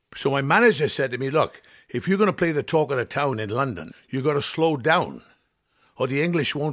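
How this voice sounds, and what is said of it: Usual voice. Nothing is said of it.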